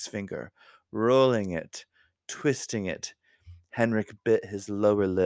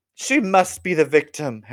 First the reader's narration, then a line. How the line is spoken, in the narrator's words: Henrik cried out